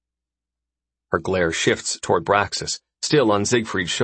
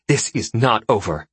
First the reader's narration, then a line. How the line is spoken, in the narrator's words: Iko hisses